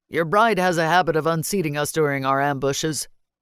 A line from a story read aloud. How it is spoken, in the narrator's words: Keeler said dryly